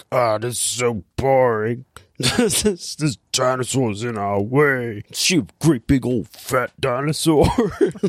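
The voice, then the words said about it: Imitates a movie character's voice. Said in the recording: “Silence of the Lamb impression ... My Buffalo Bill impression is usually much better than that ... That was more of a Fat Albert impression.”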